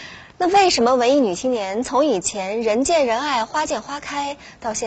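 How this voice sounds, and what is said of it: Usual voice. Nothing is said of it.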